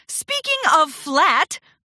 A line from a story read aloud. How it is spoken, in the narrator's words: Rarity gasped